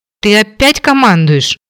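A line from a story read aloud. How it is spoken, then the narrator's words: Indignant growl. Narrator (Russian): Возмущенно рыкнула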